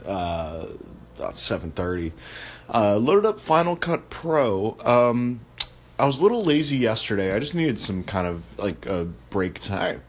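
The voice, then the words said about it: Deep, low early-morning voice. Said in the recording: “it's early, as you can probably tell by my voice. Got the Barry White-ness going on.”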